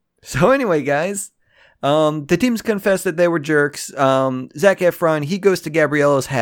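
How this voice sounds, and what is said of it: Usual voice. Nothing is said of it.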